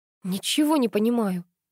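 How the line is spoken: Pleading. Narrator (Russian): взмолилась я

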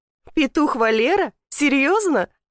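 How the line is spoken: Giggling. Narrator (Russian): Алена хихикает

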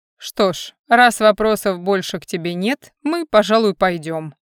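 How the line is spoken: Dismissive grunt. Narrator (Russian): хмыкнул Альдар, теряя всякий интерес к графу

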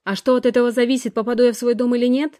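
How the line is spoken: Impatient snap, shivering. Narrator (Russian): рявкнула я, потеряв терпение и дрожа на холодном сыром ветру

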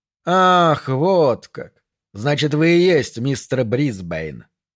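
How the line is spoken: Drawling. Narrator (Russian): протянул капитан

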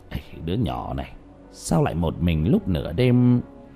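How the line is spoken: Mumbling. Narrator (Vietnamese): lẩm bẩm trong miệng

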